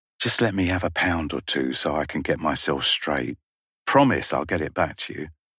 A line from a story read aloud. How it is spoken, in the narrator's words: said in a whisper